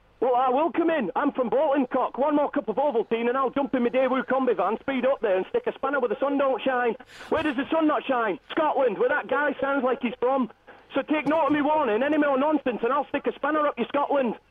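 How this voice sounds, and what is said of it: Bolton accent. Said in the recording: “Sorry, where are you from exactly, sir? ... Bolton, apparently. ... Oh, right, OK, yeah, I can see it. It's coming through with the accent.”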